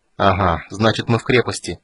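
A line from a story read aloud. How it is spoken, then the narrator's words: Grimly triumphant. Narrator (Russian): сказал Гилтонос, мрачно улыбаясь победе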